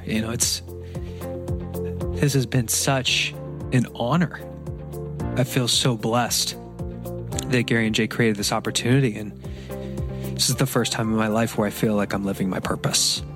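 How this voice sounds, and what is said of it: Emotional, choked-up voice. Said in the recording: “If you can't hear, I'm getting emotional over here.”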